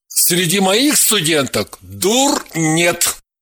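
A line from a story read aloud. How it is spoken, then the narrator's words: Shouting while running away. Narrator (Russian): крикнул Матвей, уже убегая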